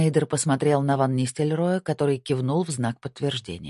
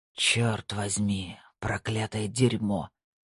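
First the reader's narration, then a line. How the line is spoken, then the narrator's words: Spoken in Dutch. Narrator (Russian): сказал Снейдер по-голландски и выдохнул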